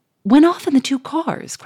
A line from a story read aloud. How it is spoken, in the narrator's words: cried the millionaire, in blank stupefaction